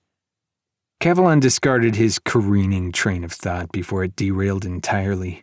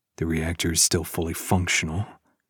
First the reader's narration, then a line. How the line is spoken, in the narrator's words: he mumbled